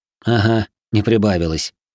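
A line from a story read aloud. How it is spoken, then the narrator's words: Skeptical snort. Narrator (Russian): хмыкнул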